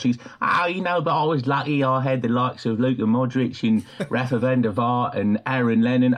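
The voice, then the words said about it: Imitates another person's voice. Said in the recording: “that is an astonishingly good impression ... my Harry Redknapp impersonation”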